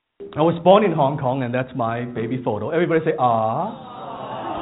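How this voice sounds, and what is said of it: Accented English, like Jackie Chan. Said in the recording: “I still speak with an accent. ... they say I still speak like Jackie Chan.”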